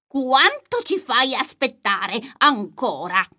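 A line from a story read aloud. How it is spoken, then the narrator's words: Frog shouting. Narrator (Italian): gridò il ranocchio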